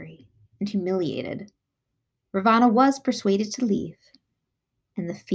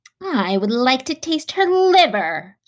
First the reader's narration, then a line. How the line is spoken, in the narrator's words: snarled one